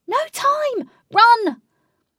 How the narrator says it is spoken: Katie screamed

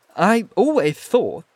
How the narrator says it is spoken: said deliberately, with a certain extenuation of his flavouring of lisp

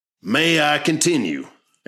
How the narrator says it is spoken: asked Plummer as his eyes narrowed and a sneer formed on his face

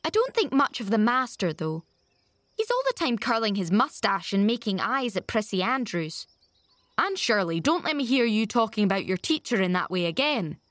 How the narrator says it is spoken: said Marilla sharply

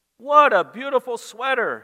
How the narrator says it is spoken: his mom exclaims

